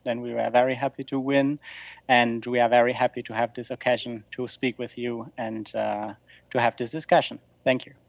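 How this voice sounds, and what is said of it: German-sounding accent, not French. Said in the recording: “your accent sounds less French and more German”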